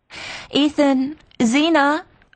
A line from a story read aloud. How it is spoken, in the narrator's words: Maddie's voice sounded gaily from the landing